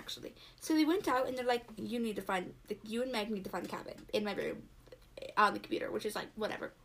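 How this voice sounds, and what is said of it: Slightly British accent. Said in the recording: “talking in a slightly British accent”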